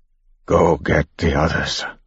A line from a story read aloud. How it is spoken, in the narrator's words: one finally said, his voice shaking